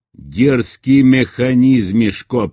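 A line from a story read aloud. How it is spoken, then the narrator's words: Thundering. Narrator (Russian): прогремел путь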